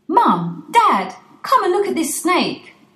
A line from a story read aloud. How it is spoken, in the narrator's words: Dudley shouts